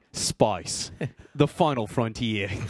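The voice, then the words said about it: Put-on Australian/New Zealand accent. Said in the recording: “try to do it in an Australian accent ... that's a little bit of the New Zealand one”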